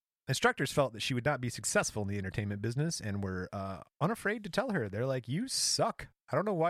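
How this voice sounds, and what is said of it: Usual voice. Nothing is said of it.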